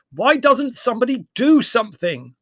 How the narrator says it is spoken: asked Larry, raising his voice above the uproar

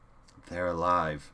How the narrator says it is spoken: she said flatly

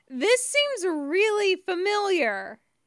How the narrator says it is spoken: James shouts

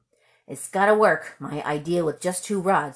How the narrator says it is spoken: he muttered anxiously

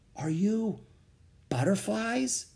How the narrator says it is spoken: I whispered

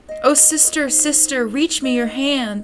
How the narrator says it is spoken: cried

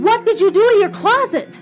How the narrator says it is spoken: She shouted

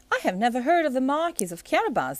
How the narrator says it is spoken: exclaimed the king

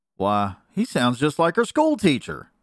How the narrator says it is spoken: exclaimed Neddie

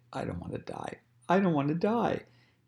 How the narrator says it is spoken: He pleaded

